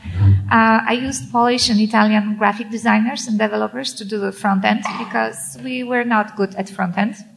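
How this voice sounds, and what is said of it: French-accented English. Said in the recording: “I'm French, and if you don't understand my accent”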